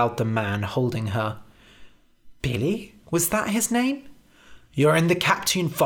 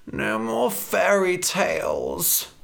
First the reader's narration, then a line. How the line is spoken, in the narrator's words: Red groaned